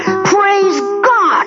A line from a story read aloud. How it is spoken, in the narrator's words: he yelled